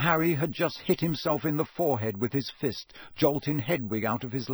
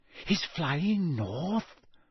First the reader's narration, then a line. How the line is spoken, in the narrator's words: Hermione whispered